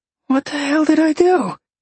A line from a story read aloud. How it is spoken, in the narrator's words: He gasped